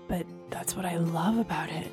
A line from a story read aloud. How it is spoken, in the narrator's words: he murmured